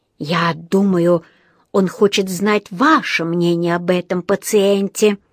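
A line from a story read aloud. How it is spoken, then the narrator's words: Hissed into ear. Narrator (Russian): прошипел Паддингтону на ухо один из врачей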